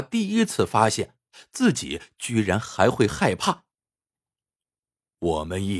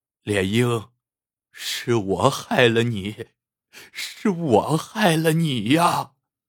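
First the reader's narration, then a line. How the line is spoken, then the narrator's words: Sobbing bitterly. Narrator (Chinese): 陈文业失声痛哭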